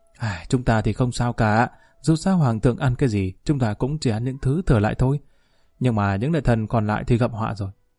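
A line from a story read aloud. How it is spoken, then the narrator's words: Sighing. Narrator (Vietnamese): thở dài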